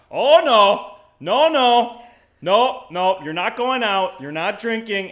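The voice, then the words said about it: Thick Wisconsin accent impression. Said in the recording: “his thick Wisconsin accent”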